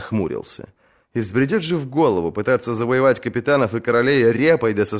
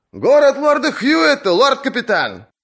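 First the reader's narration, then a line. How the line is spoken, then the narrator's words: Shouted from the deck. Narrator (Russian): крикнули ему с палубы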